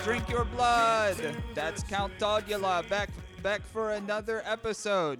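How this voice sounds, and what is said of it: Vampire-like accent. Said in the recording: “a regional accent you're doing or a vampire one”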